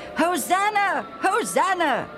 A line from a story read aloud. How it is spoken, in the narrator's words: the crowd kept shouting